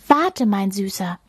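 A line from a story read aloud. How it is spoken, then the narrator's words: Soft cooing. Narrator (German): säuselt sie sanft in Richtung Babywal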